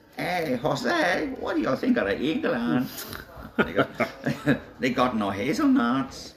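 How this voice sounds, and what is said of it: Bad put-on Chilean accent. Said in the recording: “it's a terrible impression”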